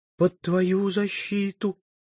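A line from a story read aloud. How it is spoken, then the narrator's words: Frightened trembling singing. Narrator (Russian): Оно показалось ей до того грозным, беспощадным и разъяренным, что она запела дрожащим голосом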